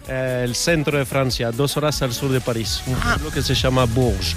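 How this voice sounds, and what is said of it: Spanish with Uruguayan or Argentine-sounding accent. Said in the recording (Spanish): “así por tu acento yo diría que el día que ganó España el Mundial tú no estabas muy contento ... no eres uruguayo ... ¿Eres argentino?”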